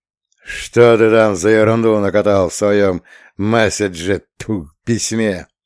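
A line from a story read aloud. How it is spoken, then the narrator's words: Growled. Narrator (Russian): прорычал он, глядя на Данилу мутными глазами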